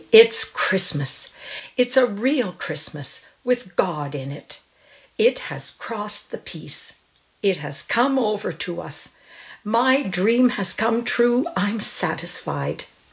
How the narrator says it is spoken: she cried happily

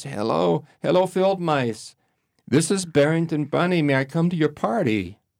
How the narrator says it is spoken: the wind was howling so loudly and Barrington was sobbing so much that, well, no one heard him

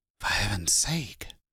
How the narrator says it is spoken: Loyce muttered, sickened

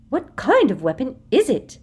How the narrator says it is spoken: said Umbridge harshly

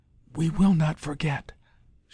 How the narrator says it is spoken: she whispered

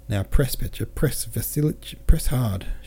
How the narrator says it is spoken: she cried

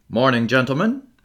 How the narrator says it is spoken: he said cheerfully

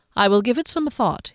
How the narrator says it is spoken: he said

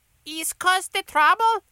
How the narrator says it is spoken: Officer Ben Grimble questioned in her high, noble space accent

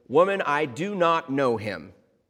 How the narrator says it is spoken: maybe a little too loudly, exclaimed

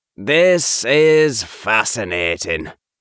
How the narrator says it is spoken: Blue says in a monotone

